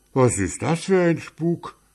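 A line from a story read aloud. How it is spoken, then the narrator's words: Man calling out. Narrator (German): rief einer der Männer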